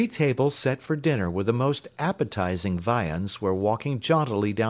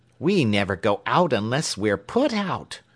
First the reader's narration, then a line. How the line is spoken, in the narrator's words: cried another